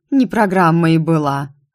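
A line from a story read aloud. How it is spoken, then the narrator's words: Grumbling, princess. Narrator (Russian): проворчала принцесса Тигверт, точь-в-точь, как ее муж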